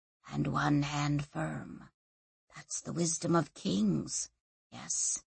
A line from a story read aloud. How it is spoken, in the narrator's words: he whispered to her